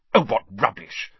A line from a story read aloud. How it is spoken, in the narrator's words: said Hermione impatiently